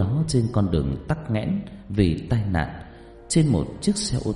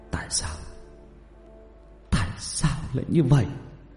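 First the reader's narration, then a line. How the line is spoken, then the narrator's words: Tearful sobbing question. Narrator (Vietnamese): mếu máo hỏi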